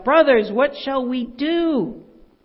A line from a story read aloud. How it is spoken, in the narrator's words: In agony, he cried out